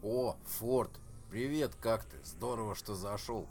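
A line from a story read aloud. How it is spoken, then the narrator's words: Crudely feigned indifference. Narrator (Russian): с грубо деланным равнодушием сказал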